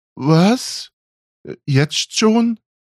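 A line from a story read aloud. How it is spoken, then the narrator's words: Stammering. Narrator (German): stammelte sie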